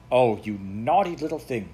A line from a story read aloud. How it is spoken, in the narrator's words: she cried crossly